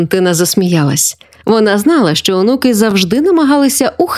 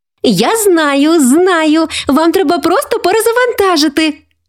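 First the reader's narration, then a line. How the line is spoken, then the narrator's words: Exclaimed. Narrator (Ukrainian): вигукнула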